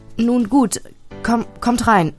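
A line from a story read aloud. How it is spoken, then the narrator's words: Stammered. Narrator (German): stammelte meine Mutter schließlich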